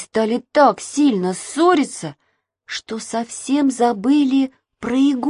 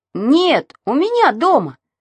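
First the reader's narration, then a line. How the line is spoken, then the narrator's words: Wailing shout. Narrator (Russian): завопил Саша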